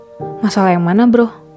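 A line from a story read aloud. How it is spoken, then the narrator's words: Soft quiet question. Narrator (Indonesian): tanya Sigit dengan lirih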